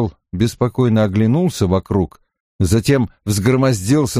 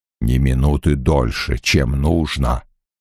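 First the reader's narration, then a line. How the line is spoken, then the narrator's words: Muttered. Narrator (Russian): пробормотал он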